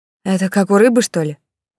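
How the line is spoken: Knowing snort. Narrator (Russian): понятливо хмыкнула Даша

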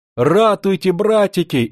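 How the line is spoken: Frightened scream. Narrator (Russian): испуганно закричала она

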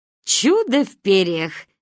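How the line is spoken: Amused snort. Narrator (Russian): хмыкнула Ба

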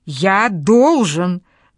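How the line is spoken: Roar. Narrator (Russian): взревел Вардес

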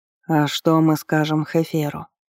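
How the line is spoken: Barely audible question. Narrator (Russian): чуть слышно спросил Элират

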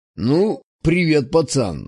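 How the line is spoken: Smirking snort. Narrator (Russian): хмыкнул он

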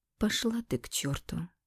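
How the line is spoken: Calm reply. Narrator (Russian): Спокойно ответила я

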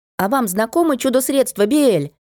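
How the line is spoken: Young lady calling out. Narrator (Russian): выкрикнула барышня

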